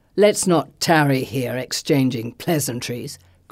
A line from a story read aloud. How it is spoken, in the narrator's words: Christus snarls